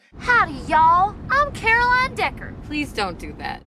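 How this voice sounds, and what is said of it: Bad put-on Texas accent. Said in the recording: “starts trying to do a Texas accent ... it was bad. It does not pass the Sarah test.”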